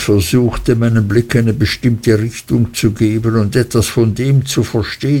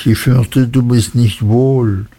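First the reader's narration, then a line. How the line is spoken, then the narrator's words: Slurred. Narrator (German): lallte ich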